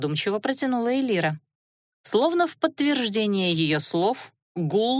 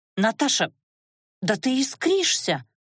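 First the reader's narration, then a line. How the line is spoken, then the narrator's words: Frightened exclamation. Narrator (Russian): воскликнула Лана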